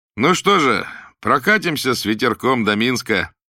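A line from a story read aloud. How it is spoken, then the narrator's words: Cheerful question. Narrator (Russian): весело спросил он Ивана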